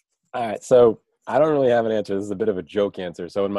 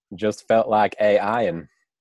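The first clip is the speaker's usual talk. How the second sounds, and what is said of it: Forrest Gump accent impression. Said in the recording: “in my best Forrest Gump accent”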